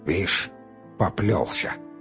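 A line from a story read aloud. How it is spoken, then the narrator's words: Muttered. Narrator (Russian): пробормотал он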